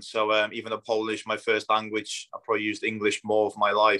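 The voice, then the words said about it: Mixed accent with Northwest English hints. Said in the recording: “there's a bit of Northwest in there ... I've had Australian previously as well ... It's a bit of a mixture of everything, really.”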